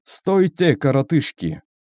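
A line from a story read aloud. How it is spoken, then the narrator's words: Commanding, authoritative. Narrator (Russian): Властным тоном приказал он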